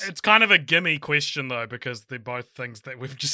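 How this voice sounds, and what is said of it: Usual voice. Nothing is said of it.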